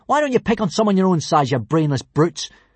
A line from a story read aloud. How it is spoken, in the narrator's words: snapped Hiccup at the bullies